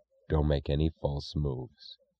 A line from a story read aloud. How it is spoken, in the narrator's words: he said in an expressionless voice